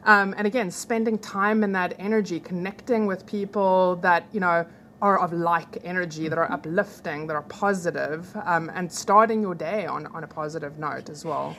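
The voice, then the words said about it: Distinctive Southern Hemisphere accent. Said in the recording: “you've got the greatest accent ... Southern Hemisphere”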